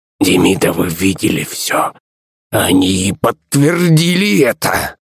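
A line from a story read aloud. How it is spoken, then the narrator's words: Wheezing grumpy old man. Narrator (Russian): просипел вредный старый пердун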